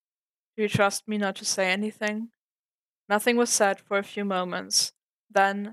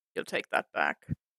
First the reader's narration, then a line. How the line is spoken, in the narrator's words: Hawkeye muttered